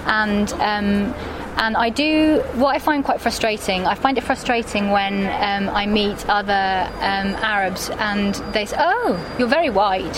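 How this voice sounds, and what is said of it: English RP accent. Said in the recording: “I have an RP accent, so I sound English”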